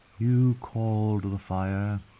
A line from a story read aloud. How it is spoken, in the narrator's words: she whispered, her voice as faint as the sound of waves in a seashell, sad and soft